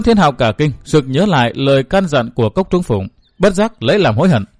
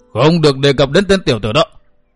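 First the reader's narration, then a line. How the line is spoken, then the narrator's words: Old man's angry roar. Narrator (Vietnamese): Lão gầm hét một tiếng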